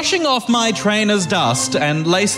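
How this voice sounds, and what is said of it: Posh British accent. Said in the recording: “I have popped on my best British accent ... He's quite posh.”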